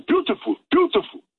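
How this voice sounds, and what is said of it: Imitates a dentist's voice. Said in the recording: “Good impression.”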